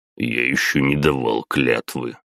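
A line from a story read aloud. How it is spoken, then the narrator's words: Grumbling mutter. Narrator (Russian): пробурчал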